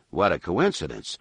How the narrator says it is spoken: said dryly

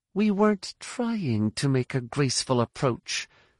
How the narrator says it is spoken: Jaina said through gritted teeth

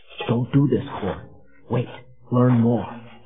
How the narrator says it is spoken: saying in a low voice

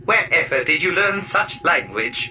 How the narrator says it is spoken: The Wookiee chuckled

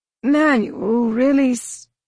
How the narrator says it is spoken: he wheezed, falling back against Tahiri in a manner that suggested all of his strength had been spent

